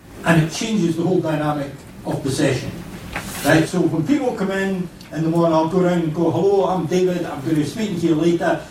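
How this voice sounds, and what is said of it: Speaker's own regional accent. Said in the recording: “this will help you get used to the accent”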